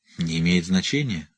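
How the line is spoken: Embarrassed mumble. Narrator (Russian): смущенно пробормотал Рек

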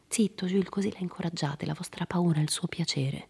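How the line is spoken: Low voice. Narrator (Italian): Jim disse a Jules sottovoce

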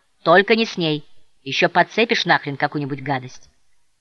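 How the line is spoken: Loud yell. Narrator (Russian): какой-то парень громко проорал

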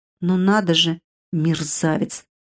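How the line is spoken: Offended mutter. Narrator (Russian): пробормотала Вивьера, как мне показалось, с обидой

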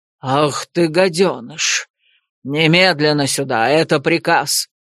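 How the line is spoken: Fierce exasperated bark. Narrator (Russian): Свирепо рявкнул Фаэс, окончательно потеряв терпение

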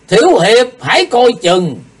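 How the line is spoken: Loud shout. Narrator (Vietnamese): diệu thủ thiên sư thét to

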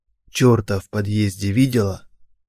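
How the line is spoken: Man's whispered question. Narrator (Russian): шепотом спросил мужчина

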